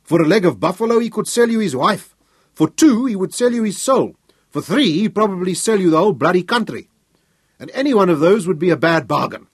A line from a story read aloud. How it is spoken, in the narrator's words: he roared with laughter